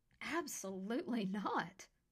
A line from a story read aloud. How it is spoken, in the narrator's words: she exclaimed